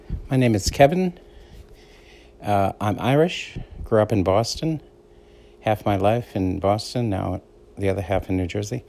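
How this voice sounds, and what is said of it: Boston accent. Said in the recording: “I have what's called a Boston accent. So I make, I say words a little different, like park. So that's P-A-R-K. It sounds like P-A-H-K”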